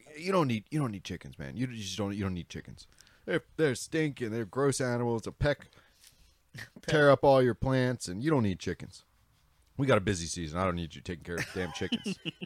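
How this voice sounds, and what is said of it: Imitates another person's voice. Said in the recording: “my impression of my dad”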